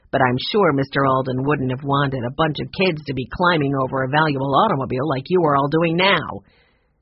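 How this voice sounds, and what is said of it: Growly man's voice. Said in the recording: “in a growly voice”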